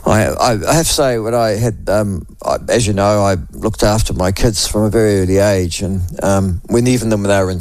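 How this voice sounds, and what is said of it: Sick-sounding voice. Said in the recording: “as you can probably hear from my voice, if I'm very honest with you, if I'm here tomorrow, I will be stunned ... I don't think I caught it in Auckland”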